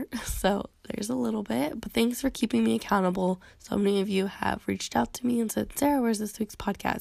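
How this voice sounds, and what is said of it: Sick-sounding voice. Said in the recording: “we just cannot break the sickness over here ... hear it in my voice ... it's still in my voice”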